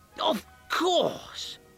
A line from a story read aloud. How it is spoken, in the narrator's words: cried Van Helsing